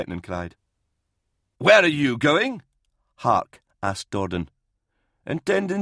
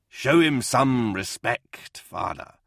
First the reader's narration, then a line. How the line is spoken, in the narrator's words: Hart growled